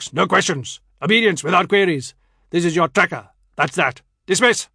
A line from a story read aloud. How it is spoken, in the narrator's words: Najmuddin barks